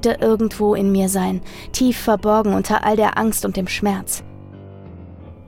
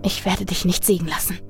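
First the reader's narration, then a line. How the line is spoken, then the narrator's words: Whispered into darkness. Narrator (German): flüsterte ich in die Finsternis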